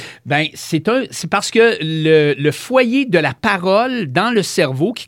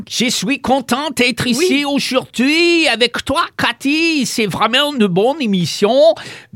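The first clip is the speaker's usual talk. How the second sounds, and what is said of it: Put-on foreign accent. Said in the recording (French): “ça sort avec un accent quelconque”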